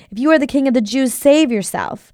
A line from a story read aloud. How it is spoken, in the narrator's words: They called out to him